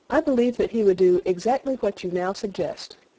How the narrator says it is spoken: said I

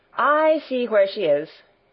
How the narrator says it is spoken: exclaimed Barbel

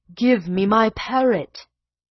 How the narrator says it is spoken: he rolled his eyes and cried

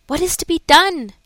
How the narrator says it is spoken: kept exclaiming

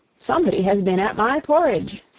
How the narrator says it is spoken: said the middle bear in her middle voice

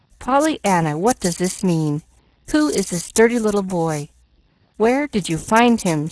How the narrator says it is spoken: she demanded sharply

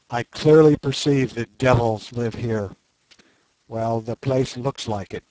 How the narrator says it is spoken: said Umslopogaas calmly

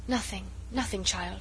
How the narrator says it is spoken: she murmured, as in a dream

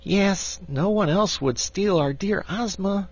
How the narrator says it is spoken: sighed Tiny Trot

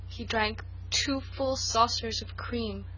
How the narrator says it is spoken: moaned Felicity

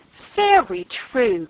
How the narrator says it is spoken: cried Mrs

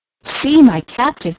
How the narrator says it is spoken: cried Leslie

